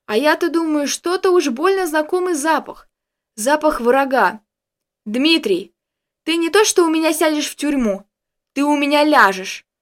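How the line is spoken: Bursting out yelling. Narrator (Russian): Не сдержавшись, наконец заорал он

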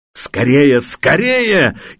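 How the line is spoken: Frantic yelling. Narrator (Russian): истошно заорал старшой

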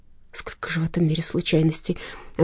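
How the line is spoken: Breathy exhale. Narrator (Russian): выдохнула Ариадна

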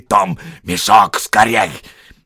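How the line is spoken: Hissing. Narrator (Russian): Берт и Билл зашипели

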